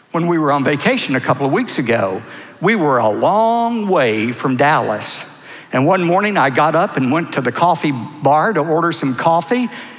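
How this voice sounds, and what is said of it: Texas accent. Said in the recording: “how long have you lived in Texas? ... The accent gave me away.”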